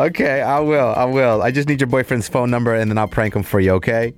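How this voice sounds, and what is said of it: Usual voice. Nothing is said of it.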